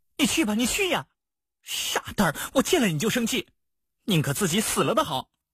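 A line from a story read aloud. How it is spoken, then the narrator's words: Angry. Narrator (Chinese): 陆无双怒道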